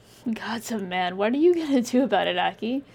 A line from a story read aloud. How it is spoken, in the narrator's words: He laughed bitterly